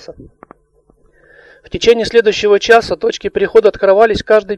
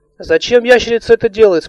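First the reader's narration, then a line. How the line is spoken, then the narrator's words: Plain. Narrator (Russian): спросила Алиса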